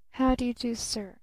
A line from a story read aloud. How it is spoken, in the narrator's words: she murmured almost inaudibly